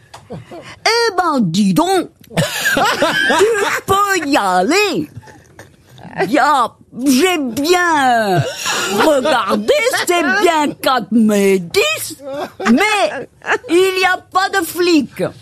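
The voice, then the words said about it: Poorly done put-on Belgian accent. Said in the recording (French): “j'ai jamais vu quelqu'un faire aussi mal un accent belge”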